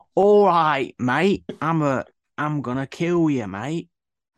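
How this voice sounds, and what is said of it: Put-on Cockney accent. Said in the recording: “I thought he was doing a bad accent. ... you might not be Cockney”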